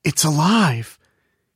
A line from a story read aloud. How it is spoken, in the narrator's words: he gasped